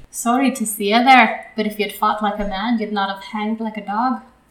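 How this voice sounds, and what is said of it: Put-on Irish accent. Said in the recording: “Will you do the Irish accent? ... I can try. ... Hopefully more Irish people are listening.”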